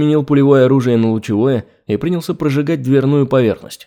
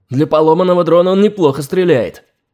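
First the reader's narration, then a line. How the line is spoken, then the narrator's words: Snapping. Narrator (Russian): огрызнулся бессмертный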